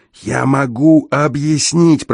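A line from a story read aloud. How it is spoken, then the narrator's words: Hoarse croak. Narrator (Russian): прохрипел я наконец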